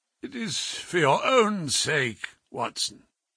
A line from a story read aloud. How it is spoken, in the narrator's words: croaked